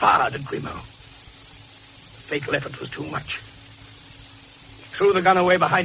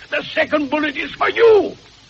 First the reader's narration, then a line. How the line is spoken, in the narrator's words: It was Flay's own voice that your witnesses heard, Hadley, as he cried out